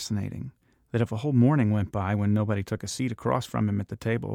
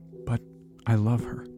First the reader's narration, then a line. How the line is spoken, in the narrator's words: Myron said in a choked voice